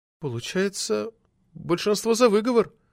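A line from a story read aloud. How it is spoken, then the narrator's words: Confused report. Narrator (Russian): растерянно доложила Арина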